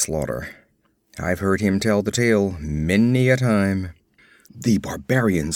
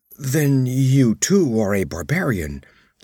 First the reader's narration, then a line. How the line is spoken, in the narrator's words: he exclaimed involuntarily